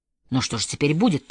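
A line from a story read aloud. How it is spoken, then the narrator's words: Confused muttering. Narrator (Russian): пробормотал в замешательстве Родди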